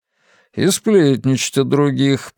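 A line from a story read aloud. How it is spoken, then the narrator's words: Good-natured grumble. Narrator (Russian): пробурчал Эйзенхарт, но очень уж доброжелательно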